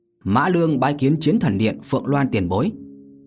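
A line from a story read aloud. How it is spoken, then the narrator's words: Raised voice. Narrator (Vietnamese): Vô Lâm cao giọng nói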